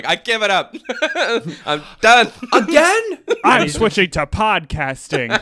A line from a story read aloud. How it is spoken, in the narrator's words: all dramatically